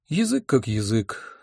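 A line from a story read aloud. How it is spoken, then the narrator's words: Sighing. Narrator (Russian): вздохнул я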